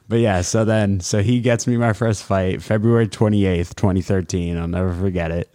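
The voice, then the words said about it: Deep podcast-style voice. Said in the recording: “you have a nice, like, deep podcast voice.”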